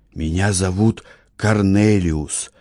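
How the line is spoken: Whispered. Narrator (Russian): шепотом сказал он

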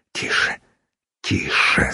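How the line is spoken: Whispered in ear. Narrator (Russian): зашептал ей в ухо Йонах

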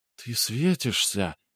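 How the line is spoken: Soft whisper. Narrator (Russian): тихо прошептала радистка

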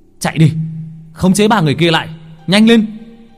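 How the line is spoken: Shouting. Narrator (Vietnamese): Mình hét lên

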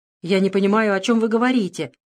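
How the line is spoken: Irritated curt retort. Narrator (Russian): раздраженно бросил

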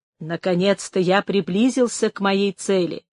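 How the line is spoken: Quiet. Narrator (Russian): проговорил тихо один из сеньоров

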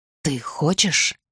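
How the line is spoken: Whispered. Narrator (Russian): Арден шепнул

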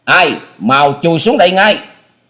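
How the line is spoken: Thunderous roaring shout. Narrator (Vietnamese): Âm thanh của tiếng quát chấn động cả mái nhà, cột kèo vang lên nghe răng rắc dữ dội

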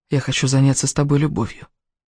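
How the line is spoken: Hoarse whisper. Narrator (Russian): хриплым голосом прошептал

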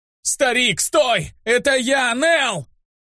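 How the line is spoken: Terrified scream. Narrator (Russian): Не помня себя от страха, закричал я

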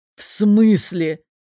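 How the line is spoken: Choked, strained. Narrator (Russian): чуть не поперхнувшись кофе, выдавил он

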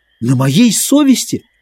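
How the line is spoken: Furious exclamation. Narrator (Russian): воскликнул Мэтчем яростно

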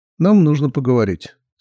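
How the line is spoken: Calm. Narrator (Russian): спокойно сказала Мэри

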